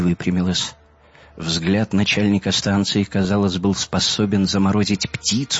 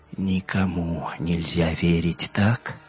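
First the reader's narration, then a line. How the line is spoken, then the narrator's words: Quiet wry chuckle. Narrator (Russian): Хель тихо усмехнулась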